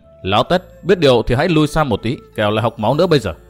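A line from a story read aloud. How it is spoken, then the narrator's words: Cold speech. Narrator (Vietnamese): Ngô Minh lạnh lùng nói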